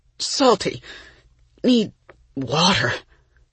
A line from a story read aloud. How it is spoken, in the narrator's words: gasped